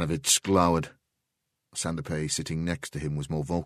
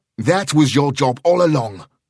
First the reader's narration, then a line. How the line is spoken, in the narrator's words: Sheridan snapped